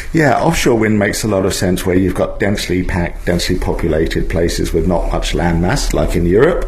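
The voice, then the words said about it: English accent. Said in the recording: “I noticed by your accent you're from England”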